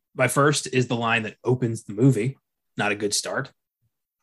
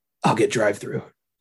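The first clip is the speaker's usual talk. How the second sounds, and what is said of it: Very serious imitated voice. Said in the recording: “in a very serious voice,”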